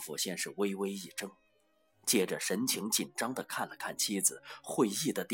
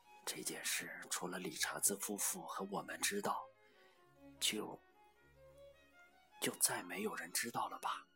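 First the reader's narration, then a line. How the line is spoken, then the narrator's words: Soft female voice. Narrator (Chinese): 他妻子轻声说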